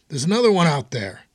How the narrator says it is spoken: Someone else shouted back

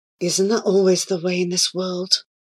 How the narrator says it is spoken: murmured Abu

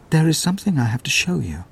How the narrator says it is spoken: she said quietly

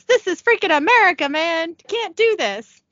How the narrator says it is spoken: JP yells

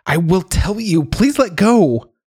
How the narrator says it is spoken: I screamed

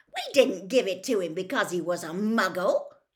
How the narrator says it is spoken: said Fred indignantly

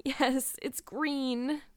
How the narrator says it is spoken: moaned Anne

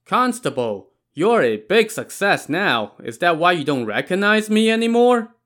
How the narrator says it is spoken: Suddenly, someone shouted from behind

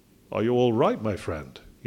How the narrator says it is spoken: he asked

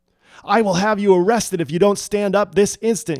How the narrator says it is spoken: screamed

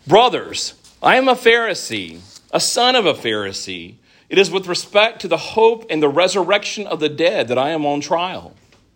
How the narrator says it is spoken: Paul ... he cried out in the council

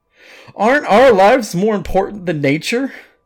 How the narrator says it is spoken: cried out

